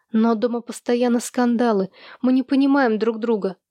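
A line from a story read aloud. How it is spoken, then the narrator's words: Sad objection. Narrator (Russian): печально возразила Луи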